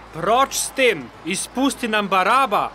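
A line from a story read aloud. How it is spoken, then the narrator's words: Crowd shouting together. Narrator (Slovenian): Tedaj so vsi hkrati zavpili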